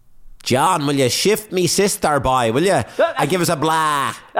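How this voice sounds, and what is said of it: Exaggerated Waterford Irish accent. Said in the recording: “put on the biggest Waterford accent you can, boy ... That's no good, boy.”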